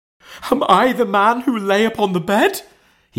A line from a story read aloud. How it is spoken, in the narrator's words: cried